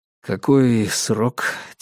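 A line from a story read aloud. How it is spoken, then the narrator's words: Quiet question. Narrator (Russian): тихо спросил я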